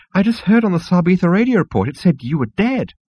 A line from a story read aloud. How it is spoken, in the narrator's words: it squealed